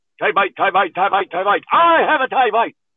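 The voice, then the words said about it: Mock Irish accent. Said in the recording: “You reverted to an Irish accent... You always sound Irish in a tongue twister.”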